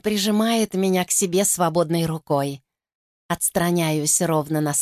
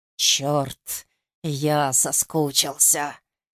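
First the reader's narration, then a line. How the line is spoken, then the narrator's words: Hoarse. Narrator (Russian): Хрипло произносит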